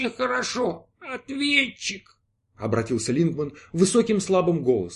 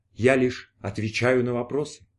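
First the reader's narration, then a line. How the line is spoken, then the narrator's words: Sad. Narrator (Russian): грустно произнес ответчик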